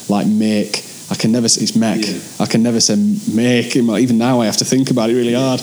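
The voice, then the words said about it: Broad Yorkshire accent. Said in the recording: “I think I've got quite a broad... Yeah, accent ... When you're from Yorkshire, there's some words you'll never be able to change”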